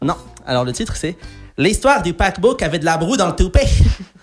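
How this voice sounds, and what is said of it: Put-on regional French accent. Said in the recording (French): “c'était juste pour m'échauffer avec l'accent.”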